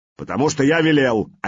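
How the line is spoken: Barked. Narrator (Russian): рявкнул Сигурд

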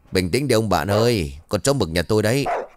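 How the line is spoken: Laughing. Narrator (Vietnamese): Kiên cười lớn rồi bảo

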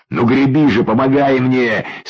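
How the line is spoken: Wheezing, hoarse, spitting. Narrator (Russian): свистел и хрипел, отплевываясь Юрьев

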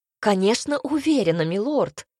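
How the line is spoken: Girl, irritated exclaim. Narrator (Russian): уже раздраженно воскликнула девушка

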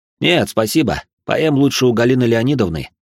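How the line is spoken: Snorting. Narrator (Russian): хмыкнул

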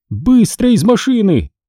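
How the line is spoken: Shouting. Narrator (Russian): закричала она

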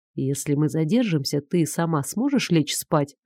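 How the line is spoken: Quiet voice. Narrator (Russian): Игорь тихим голосом сказал

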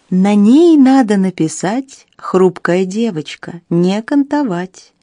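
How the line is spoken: Sung tenderly. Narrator (Russian): кто-то ласково пропел

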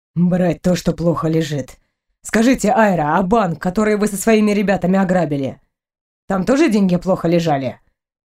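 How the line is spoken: Wry snort. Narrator (Russian): хмыкнул Клиффорд

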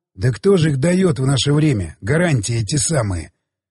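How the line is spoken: Snorting security officer. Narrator (Russian): хмыкнул безопасник

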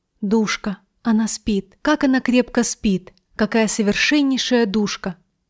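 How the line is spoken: Passionate whisper. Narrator (Russian): Он … страстно шептал

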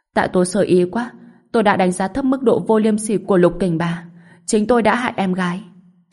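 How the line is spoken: Crying. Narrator (Vietnamese): Trần Lăng Sương khóc lóc nói

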